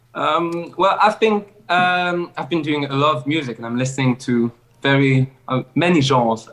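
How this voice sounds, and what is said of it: Non-native English accent. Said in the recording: “love your accent.”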